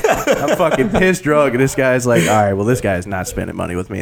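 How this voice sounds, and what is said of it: Southern American accent. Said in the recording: “I might sound Southern”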